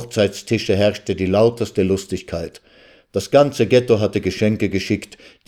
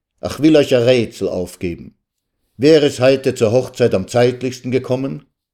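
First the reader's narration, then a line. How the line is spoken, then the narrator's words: Shouted. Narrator (German): rief er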